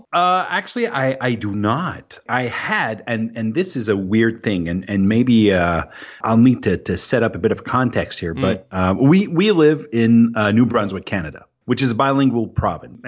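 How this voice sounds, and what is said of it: French Canadian accent in English. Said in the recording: “I have this weird accent because I'm French and I'm Francophone”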